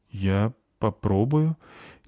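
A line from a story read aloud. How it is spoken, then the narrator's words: Uncertain. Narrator (Russian): неуверенно сказала Заверушка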